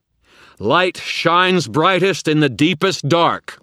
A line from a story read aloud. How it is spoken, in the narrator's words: Michael shouted, a fierce joy on his face